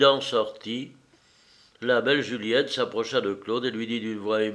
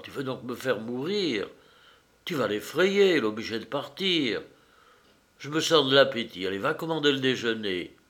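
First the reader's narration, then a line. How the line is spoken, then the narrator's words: Very quiet. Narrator (French): lui dit-il tout bas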